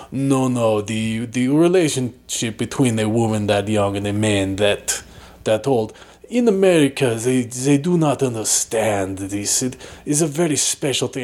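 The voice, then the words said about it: Imitated accent, going in and out. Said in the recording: “why is your accent going in and out like that?”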